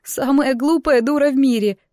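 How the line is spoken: Muffled sobbing. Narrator (Russian): прорыдала в руки

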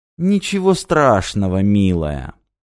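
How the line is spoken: Sweet voice. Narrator (Russian): сладким голосом отвечал Рек

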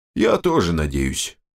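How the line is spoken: Sighing. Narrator (Russian): вздохнул Данила

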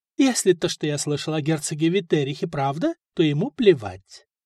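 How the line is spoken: Plain. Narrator (Russian): ответил Стефан

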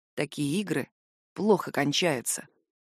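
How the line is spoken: Quiet warning whisper. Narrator (Russian): тихим предостерегающим шепотом говорит он

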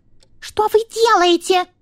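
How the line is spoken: Mouse's squeal. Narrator (Russian): взвизгнула мышь-психолог

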